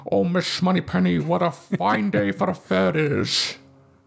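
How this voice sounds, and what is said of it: Sean Connery impression. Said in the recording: “I did practice my Sean Connery voice all the time”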